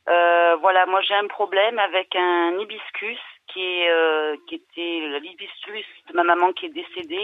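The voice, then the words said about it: Southern French regional accent. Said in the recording (French): “Avec l'accent”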